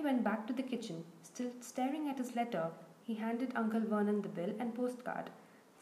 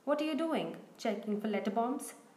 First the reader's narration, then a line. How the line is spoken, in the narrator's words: He chuckled at his own joke